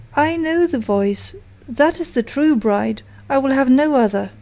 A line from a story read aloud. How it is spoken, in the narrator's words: he sprang up and cried